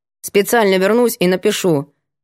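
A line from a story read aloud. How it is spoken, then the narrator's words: Curt mutter. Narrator (Russian): буркнула Даниэль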